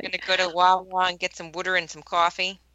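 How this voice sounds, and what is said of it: Philadelphia accent. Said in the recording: “Philadelphia. ... Your accent is just charming. ... You say like W-O-O-D-E-R.”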